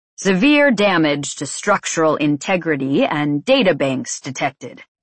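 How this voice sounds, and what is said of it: Masculine old-timey mechanical voice. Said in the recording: “a masculine voice said from the cockpit. It spoke with a strange old-timey accent, like I'd heard on the broadcasts of famous speeches ... growing less mechanical”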